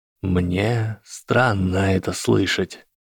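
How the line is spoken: Quiet drawl. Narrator (Russian): тихо протянул бывший профессор зельеварения

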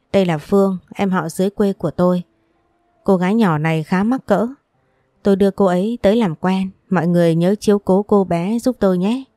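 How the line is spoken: Smiling, friendly voice. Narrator (Vietnamese): mỉm cười, giọng nói thân thiện

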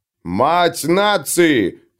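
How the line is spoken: Roared amid wild applause. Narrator (Russian): проревел другой, бешено аплодируя

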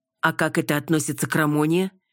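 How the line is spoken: Nearly shouting. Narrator (Russian): Едва ли не прикрикнула Сора

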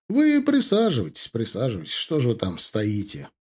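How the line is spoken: Warm, smiling. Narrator (Russian): проговорил он, ласково улыбаясь

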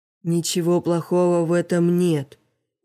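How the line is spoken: Tired reply. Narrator (Russian): устало отвечала Лопаточка

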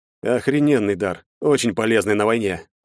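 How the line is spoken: Sighing. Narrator (Russian): вздохнул

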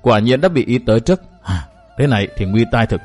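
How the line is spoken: Sighing, frustrated. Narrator (Vietnamese): Vũ Bần bỗng dầm chân xuống đất một cái, thở dài và nói tiếp

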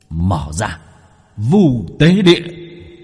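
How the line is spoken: Straining shout. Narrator (Vietnamese): Bác cổ cố gắng, hét lên

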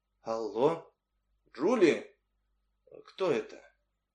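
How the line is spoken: Uncertain woman's voice. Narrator (Russian): Женщина неуверенно произнесла

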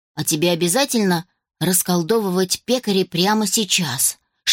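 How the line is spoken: Whisper in the ear. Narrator (Russian): шепнул Тим на ухо сестре

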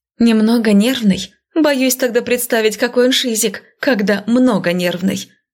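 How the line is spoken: Short laugh. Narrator (Russian): Хохотнула

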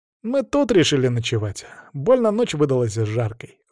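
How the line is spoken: Sighing. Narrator (Russian): вздохнул он

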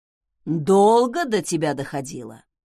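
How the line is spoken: Mocking snort. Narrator (Russian): с издевкой хмыкнул Зак

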